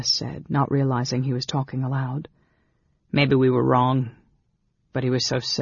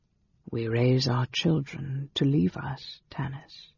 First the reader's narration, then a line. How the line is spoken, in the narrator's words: Dalimar said quietly